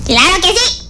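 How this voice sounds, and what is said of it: Shouting. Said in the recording (Spanish): “no grites, no grites.”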